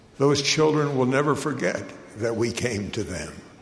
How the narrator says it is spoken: the bishop said quietly to me

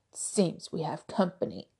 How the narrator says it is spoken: Alistair growled

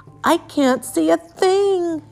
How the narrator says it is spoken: yelled Pip

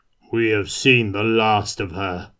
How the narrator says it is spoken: boomed Kurt

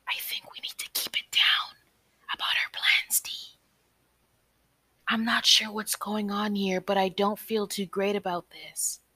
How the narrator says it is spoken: Ciara whispered

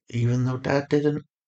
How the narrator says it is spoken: said softly

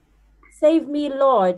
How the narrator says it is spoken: he shouted

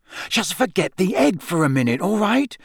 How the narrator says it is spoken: Harry hissed

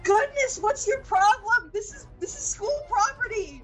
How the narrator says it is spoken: Jesse yells out

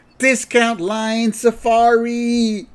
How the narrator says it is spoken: they all yell at the same time

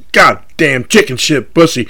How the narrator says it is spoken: snarl

